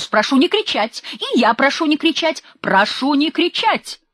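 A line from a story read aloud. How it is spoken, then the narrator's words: Sudden furious shout. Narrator (Russian): Отозвался Андрей Андреевич и вдруг бешено закричал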